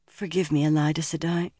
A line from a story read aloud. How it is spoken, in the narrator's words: she mumbled